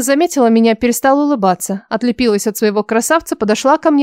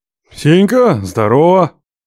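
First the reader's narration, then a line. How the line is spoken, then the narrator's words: Loud booming bark. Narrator (Russian): Гаркнул он так, что я присела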